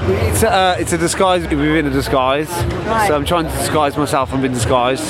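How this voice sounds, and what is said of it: Brummie (Birmingham) English accent. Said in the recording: “I think this is a Brummie accent. This is not a Mancunian accent.”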